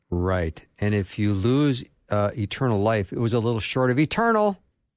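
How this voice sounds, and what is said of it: Voice rising in pitch for emphasis. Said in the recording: “why my voice went up ... That was a good inflection ... Maybe that was for affectation”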